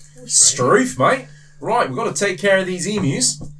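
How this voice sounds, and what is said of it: Put-on Australian accent. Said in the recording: “Australian accent next. Australia?”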